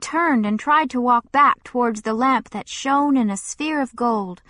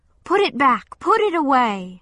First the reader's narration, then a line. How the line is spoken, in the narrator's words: cried out